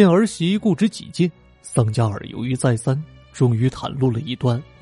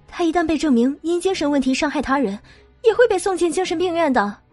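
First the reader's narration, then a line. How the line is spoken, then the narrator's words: Hurried. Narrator (Chinese): 瑞达尼急忙说道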